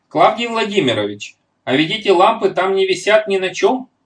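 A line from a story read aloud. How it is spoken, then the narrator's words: Exclaiming. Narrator (Russian): воскликнул Петя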